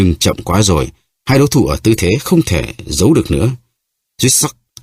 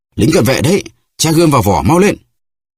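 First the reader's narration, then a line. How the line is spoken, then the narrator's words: Two voices crying out. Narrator (Vietnamese): Porthos và Aramis cùng kêu lên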